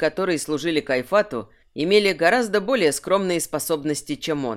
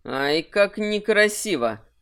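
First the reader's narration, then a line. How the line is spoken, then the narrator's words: Sneering through gritted teeth. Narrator (Russian): процедил Кирсан с хищной ухмылкой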